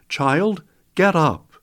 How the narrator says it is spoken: Jesus called out

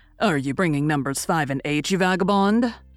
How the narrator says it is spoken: said Mr

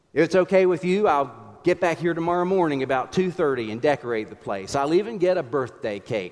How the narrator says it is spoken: said Campolo

